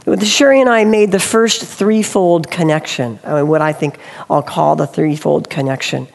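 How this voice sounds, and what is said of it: Strained, failing voice. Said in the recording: “I'm losing my voice, so I'm going to talk a little funny sometimes”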